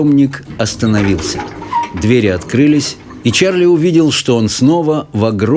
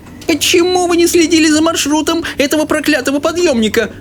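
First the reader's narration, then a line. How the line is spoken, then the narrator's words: Old woman shouting. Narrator (Russian): закричала бабушка Джозефина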